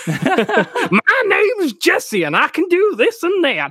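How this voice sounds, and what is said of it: Poor put-on accent. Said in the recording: “it's probably better that you don't ever send me a transcript to do any sort of accent.”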